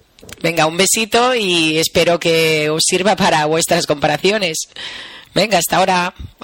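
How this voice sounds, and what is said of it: Spanish with a Catalan accent. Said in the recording (Spanish): “Suena más a catalán, pero yo creo que es por el acento que tiene ... con más acentillo catalán”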